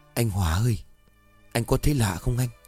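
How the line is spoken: Soft whisper. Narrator (Vietnamese): cậu Kiên khẽ thì thào

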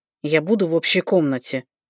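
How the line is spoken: Through gritted teeth. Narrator (Russian): выговорил сквозь зубы Мелир

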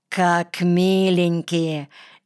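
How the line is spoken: Snide. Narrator (Russian): ехидно сказал Колька

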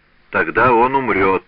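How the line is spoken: Cold. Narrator (Russian): холодно проговорил Челлини

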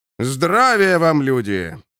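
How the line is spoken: Deep, self-important bass. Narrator (Russian): пробасил он с важностью

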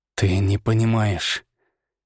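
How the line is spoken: Hissed. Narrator (Russian): прошипел я

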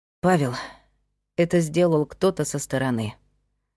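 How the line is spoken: Sighing. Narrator (Russian): вздохнула Майя

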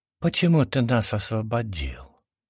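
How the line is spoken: Mesmerized mumble. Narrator (Russian): Завороженно промямлил

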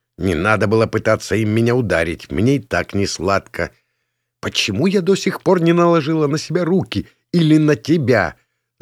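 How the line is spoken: Angry puffing. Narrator (Russian): Злобно пропыхтела госпожа Эмма Стари

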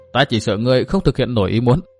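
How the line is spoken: Cold smirk. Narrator (Vietnamese): Tư Mã Minh cười nhạt

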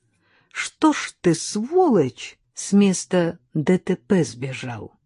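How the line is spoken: Gentle. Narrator (Russian): сказал я ласково

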